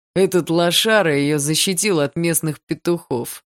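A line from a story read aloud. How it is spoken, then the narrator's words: Smirking snort. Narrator (Russian): хмыкнул второй друг Барса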